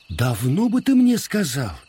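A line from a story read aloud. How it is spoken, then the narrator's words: Queen's exclamation. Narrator (Russian): воскликнула царица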